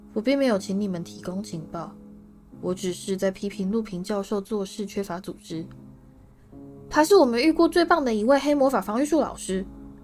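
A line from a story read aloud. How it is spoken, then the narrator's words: Cold. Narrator (Chinese): 史内普冷冷地说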